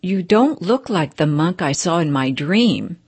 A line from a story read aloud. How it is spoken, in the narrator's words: said the layman